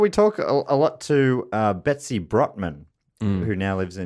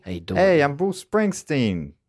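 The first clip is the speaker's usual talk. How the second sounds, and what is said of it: Put-on New Jersey accent. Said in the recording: “What's a Jersey accent again”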